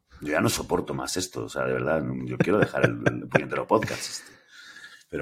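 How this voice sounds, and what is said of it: Andalusian Spanish accent. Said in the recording (Spanish): “Estoy intentando poner voz de radio, vocalizar un poquito más ... la dicción ... Soy, soy, andaluz, entonces me cuesta ... soy granadino”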